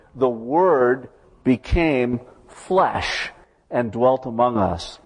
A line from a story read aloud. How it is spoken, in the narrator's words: declares dramatically